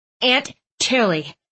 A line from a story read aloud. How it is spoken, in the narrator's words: Thistle grumbled